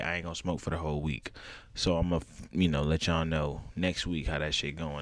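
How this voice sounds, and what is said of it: Raspy voice. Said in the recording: “My voice may be kind of raspy, bro. I need to chill on the smoking ... it's even fucking with my voice. I can hear it in the”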